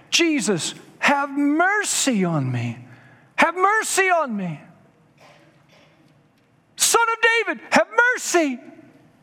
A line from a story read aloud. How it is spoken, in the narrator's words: a blind beggar named Bartimaeus, who shouted out